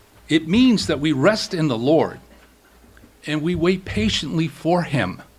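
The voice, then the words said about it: Central Massachusetts accent. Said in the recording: “I grew up in central Massachusetts. You probably can tell by my accent.”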